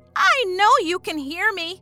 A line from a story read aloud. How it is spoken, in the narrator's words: she screamed at the door